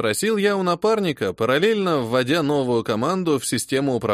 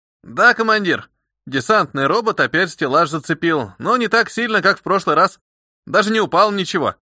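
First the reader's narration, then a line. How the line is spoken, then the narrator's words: Cheerful voice. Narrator (Russian): сообщил комрад веселым голосом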